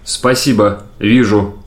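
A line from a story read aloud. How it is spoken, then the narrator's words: Plain. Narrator (Russian): сказал Юрганов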